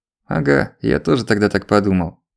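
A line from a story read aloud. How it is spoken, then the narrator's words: Wry snort. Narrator (Russian): хмыкнул Черкасов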